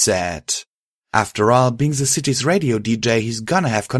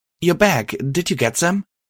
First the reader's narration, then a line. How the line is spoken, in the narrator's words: She asked excitedly